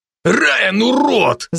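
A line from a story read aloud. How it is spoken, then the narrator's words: Growling. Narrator (Russian): зарычал беловолосый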